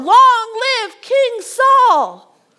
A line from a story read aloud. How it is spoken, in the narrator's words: the people respond, they roar